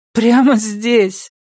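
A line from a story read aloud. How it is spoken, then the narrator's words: Half-laughing confirmation. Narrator (Russian): подтвердила Робин, теперь уже наполовину смеясь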